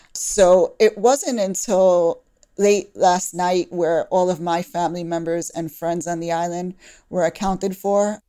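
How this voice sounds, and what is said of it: Brooklyn New York accent. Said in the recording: “I was born in Brooklyn, New York, if you can tell from the accent”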